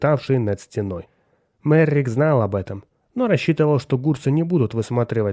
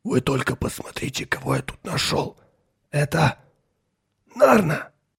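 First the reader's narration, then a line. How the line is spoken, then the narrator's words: Whisper. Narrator (Russian): прошептал Меррик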